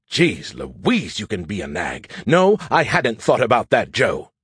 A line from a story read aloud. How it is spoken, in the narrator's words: grumbled